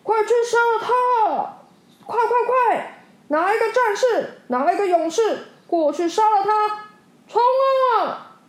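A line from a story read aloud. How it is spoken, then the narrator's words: Anxious loud shout. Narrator (Chinese): 国王急得大喊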